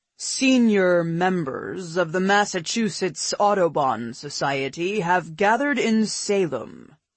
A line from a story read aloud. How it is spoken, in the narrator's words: he intoned